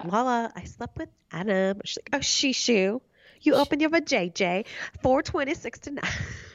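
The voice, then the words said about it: Put-on English-turned-baby voice. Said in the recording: “I don't even know what voice I'm doing. ... We went like English to ... Lala's like baby voice.”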